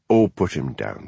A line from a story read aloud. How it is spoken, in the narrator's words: said Hamish